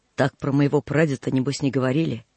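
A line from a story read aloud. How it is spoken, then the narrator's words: Grumbling through teeth. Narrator (Russian): проворчал сквозь зубы Мантык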